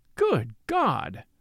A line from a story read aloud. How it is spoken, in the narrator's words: exclaimed Marchmont